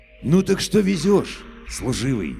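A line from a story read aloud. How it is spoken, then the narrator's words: Captain's very gentle repeat. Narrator (Russian): повторяет капитан ласково-ласково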